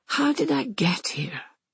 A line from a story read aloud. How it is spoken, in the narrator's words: Anna sighs, already knowing the answer